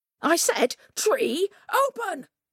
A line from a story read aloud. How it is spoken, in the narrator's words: he cried